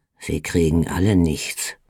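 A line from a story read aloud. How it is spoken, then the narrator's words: Murmured. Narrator (German): murmelte er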